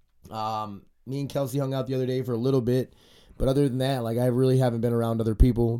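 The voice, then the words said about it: Stuffy, congested sick voice. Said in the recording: “I'm sick ... if I sound stuffy, I'm kind of sick ... I got like that sore throat thing. It's in my sinuses right now, just congested.”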